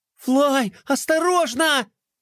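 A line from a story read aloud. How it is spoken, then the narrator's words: Alarmed shout. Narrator (Russian): закричала Глория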